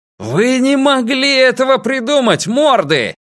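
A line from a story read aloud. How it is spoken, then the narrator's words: Shouting. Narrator (Russian): крикнул Драккайнен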